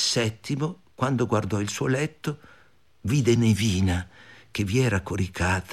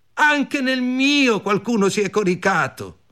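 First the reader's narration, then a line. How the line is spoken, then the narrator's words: Group shouting. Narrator (Italian): gridarono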